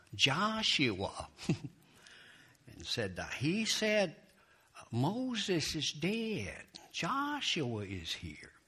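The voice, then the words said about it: Impression of preacher Warren Wiersbe. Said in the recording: “work my impersonation... if you ever heard Warren Wiersbe, he sounds something like this... that's an excellent impersonation”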